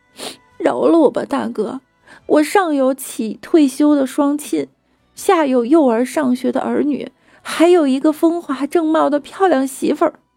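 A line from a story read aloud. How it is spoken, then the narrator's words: Tearful, sobbing plea. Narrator (Chinese): 一把鼻涕一把眼泪的向劫匪哭诉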